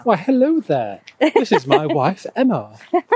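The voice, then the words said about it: Put-on received pronunciation accent. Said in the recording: “should I change my accent a little bit? A bit more of a received pronunciation?”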